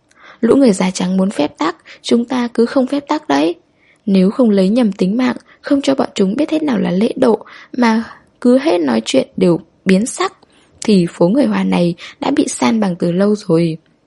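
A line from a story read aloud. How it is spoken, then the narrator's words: Sudden laughter. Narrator (Vietnamese): đột nhiên Hồng Gia bật cười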